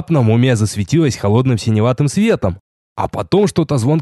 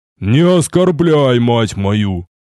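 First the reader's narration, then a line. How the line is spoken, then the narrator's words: Displeased growl. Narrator (Russian): Недовольно рыкнул в ответ черноволосый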